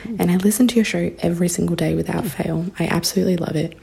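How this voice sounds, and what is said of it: Australian accent. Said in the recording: “as you can probably tell by my accent, I am not an American, but I am an Australian.”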